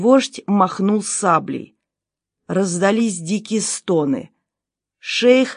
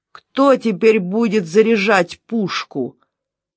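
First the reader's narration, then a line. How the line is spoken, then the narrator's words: Menacing question. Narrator (Russian): грозно спросил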